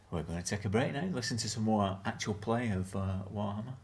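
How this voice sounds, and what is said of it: BBC continuity announcer style delivery. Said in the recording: “I sound like a continuity. ... BBC”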